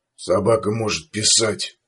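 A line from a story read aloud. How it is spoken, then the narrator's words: Gloomy. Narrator (Russian): мрачно сказал Сувайн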